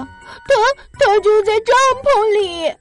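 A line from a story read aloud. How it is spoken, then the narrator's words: Crying. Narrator (Chinese): 琪琪哭着说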